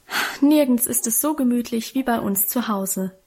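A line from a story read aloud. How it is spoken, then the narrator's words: Contented sigh. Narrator (German): hatte Guste auch an diesem Abend wieder einmal mit einem befriedigten Seufzer versichert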